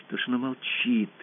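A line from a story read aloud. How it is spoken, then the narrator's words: Whispered. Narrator (Russian): прошептала Алиса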